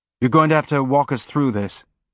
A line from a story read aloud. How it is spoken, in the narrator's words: Holden said, quickly